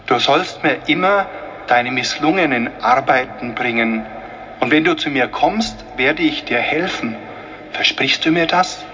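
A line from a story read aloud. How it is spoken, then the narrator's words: Plain. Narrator (German): sagte das Christkind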